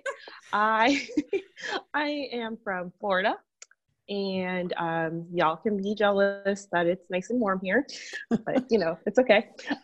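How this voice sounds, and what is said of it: Very hoarse voice. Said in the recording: “I'm getting over an illness. So that's why I sound very hoarse”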